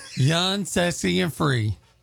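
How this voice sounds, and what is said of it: Poor attempt at country accent. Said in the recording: “You can't even sound country when you're trying. ... I was trying to do country. ... it didn't come out very well. ... Y'all aren't very good at this.”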